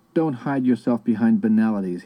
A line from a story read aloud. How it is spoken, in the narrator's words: he said in an accusing tone